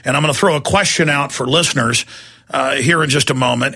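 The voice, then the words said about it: Worn-out voice, deeper than normal. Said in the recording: “my voice is a little bit worn out and a bit deeper than normal”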